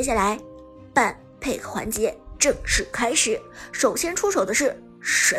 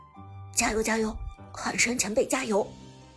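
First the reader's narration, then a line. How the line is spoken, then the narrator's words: Low and grave. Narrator (Chinese): 阿康低声凝重地说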